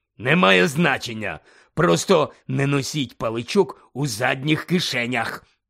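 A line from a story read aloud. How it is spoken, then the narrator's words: Growl. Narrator (Ukrainian): прогарчав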